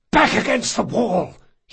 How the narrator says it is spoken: he hissed

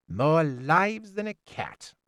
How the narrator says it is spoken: said sneeringly

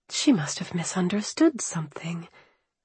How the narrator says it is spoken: I murmured, my head spinning

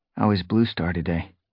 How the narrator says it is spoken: He asked quietly

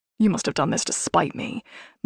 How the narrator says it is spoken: my dad hissed

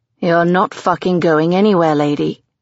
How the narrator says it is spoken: he growls

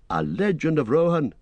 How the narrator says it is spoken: cried Legolas

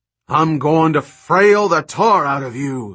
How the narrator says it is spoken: he roared

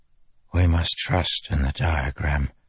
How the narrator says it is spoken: Taravangian whispered

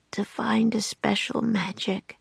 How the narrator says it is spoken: he mumbled

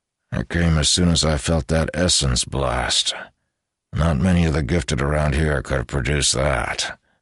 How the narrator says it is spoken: Tyrus observed dryly

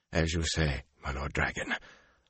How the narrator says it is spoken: Asmodian stammered

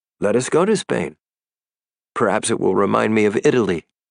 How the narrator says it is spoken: he said brightly

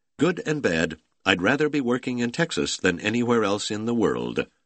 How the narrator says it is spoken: On the phone to Houston, he said cheerfully

